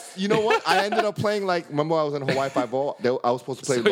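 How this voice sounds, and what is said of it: Usual voice. Nothing is said of it.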